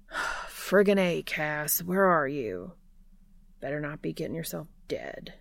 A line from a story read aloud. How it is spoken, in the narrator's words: he mutters